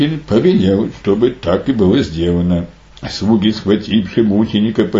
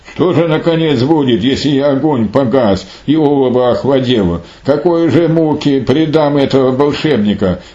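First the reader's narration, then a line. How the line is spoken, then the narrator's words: King's exclamation. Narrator (Russian): царь воскликнул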